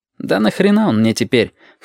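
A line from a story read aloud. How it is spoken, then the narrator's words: Scoffing snort. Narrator (Russian): хмыкнул Абов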